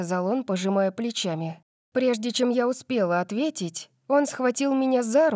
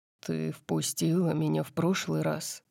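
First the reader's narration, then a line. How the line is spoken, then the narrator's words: Quiet reminder. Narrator (Russian): напомнил он мне тихим голосом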